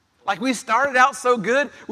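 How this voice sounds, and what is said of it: Texan-sounding pronunciation. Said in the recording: “that sounded so Texan”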